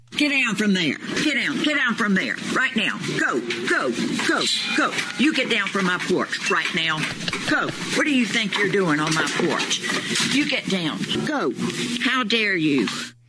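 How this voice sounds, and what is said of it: Stern scolding teacher voice. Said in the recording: “used her teacher voice ... that sounded like she could have been talking to a kid climbing on the desk”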